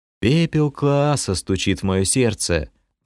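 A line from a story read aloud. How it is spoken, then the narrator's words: Muttered. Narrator (Russian): пробормотал я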